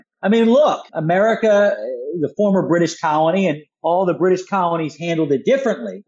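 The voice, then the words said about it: Philadelphia American accent. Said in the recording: “I'm from Philadelphia originally, as I'm sure your audience can hear in my accent”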